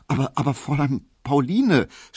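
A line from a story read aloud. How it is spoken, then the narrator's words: Guilty stammering. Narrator (German): stotterte Emil Kubinke, und er hatte ein sehr böses Gewissen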